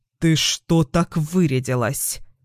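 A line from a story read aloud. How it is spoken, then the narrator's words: Angry snort. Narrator (Russian): Злобно фыркает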